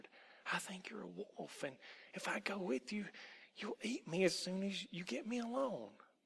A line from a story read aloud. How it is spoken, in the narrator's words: Tom whispered